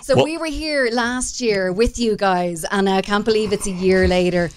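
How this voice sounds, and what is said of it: Irish accent. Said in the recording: “Listen to that accent... Are you Irish?... I am.”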